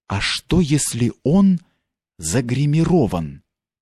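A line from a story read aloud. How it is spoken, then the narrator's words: Young lady's whisper. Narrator (Russian): прошептала барышня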